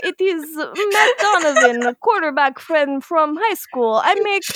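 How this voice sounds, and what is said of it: Put-on Russian accent. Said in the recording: “doing like Russian accent.”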